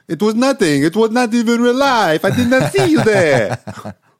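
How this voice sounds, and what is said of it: Put-on French accent. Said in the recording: “Apologies for my French accent.”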